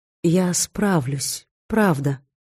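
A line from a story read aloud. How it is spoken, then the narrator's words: Very soft, ingratiating. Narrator (Russian): очень мягко, вкрадчиво заверила Скандра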